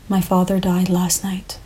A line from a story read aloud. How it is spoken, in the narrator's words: he whispered